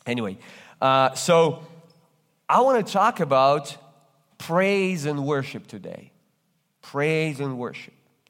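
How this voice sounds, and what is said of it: Russian accent. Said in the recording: “I'm originally come from Russia. That's why you detect this accent.”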